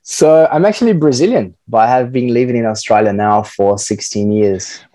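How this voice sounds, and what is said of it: Slight hybrid Brazilian-Australian accent. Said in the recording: “You do have a little bit of a hybrid Brazilian-Australian accent.”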